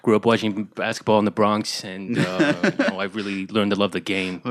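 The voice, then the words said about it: Put-on New York accent. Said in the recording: “his I know basketball accent... It's a little bit New York.”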